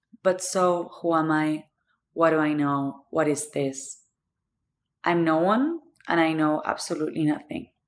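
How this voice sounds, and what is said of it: Thick Argentine accent. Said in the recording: “The thick accent is because I'm from Argentina”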